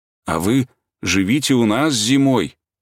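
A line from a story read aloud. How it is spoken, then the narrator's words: Trembling, near tears, child. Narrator (Russian): проговорил Митя, еще больше нахмуриваясь и слегка дрожащим голосом, потому что ему было уже до слез жалко кукушку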